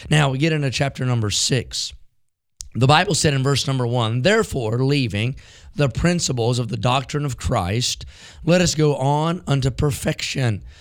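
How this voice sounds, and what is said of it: Rough, strained voice. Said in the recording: “apologize for my voice ... you sound rough.”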